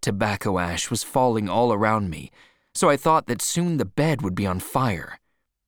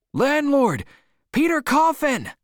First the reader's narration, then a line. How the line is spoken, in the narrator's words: I shouted